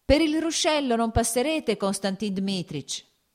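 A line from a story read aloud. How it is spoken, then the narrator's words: Farmhand shouting. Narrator (Italian): gridò il garzone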